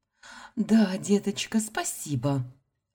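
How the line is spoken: Joyful. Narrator (Russian): радостно ответила София

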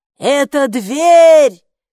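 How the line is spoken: Gatekeeper shouting mid-flight. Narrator (Russian): крикнула привратница на лету

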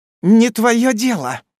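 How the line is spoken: Sudden vicious hiss, kitten. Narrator (Russian): неожиданно злобно зашипел котеночек

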